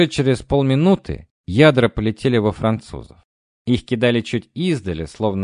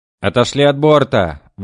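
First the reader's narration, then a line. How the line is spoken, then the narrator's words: Shouted command. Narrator (Russian): выкрикнул я своим солдатам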